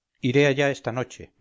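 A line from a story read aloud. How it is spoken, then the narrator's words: Plain. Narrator (Spanish): me contestó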